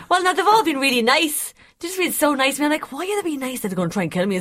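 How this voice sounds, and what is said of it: Irish accent. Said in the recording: “it's nice to have the Irish accent”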